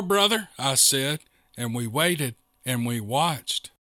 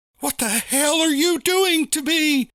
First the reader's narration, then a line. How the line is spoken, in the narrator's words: Blabbermouth scream